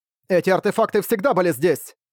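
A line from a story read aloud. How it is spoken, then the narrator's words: Cold shout. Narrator (Russian): Цинему прокричал холодно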